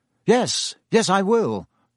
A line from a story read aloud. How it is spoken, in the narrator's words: said Lupin